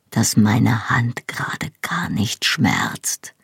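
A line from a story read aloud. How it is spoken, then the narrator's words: Quiet reply. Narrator (German): antwortete er leise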